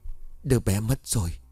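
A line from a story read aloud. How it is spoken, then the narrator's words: Sighing, then soft. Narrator (Vietnamese): Cường thở dài một hơi rồi nhẹ giọng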